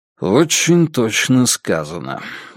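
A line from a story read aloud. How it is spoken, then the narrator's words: Gloomy agreement. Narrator (Russian): мрачно согласился Страйк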